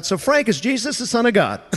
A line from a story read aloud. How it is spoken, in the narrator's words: Pastor Dale blurts out